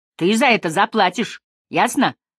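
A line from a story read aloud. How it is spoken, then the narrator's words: Threatening. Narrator (Russian): она грозно говорит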